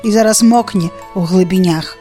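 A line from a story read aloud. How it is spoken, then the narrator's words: Sad. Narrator (Belarusian): сумна адказаў левы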